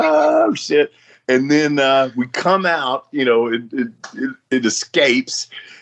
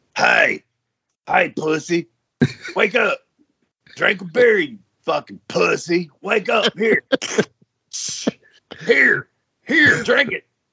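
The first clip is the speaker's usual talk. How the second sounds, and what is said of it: Impression of a friend's wake-up yelling. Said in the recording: “Do the impersonation of him when he would try to wake you up at 7 a.m.”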